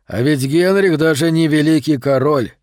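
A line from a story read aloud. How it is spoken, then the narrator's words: Glum smirk. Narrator (Russian): уныло усмехнулся Ванактерен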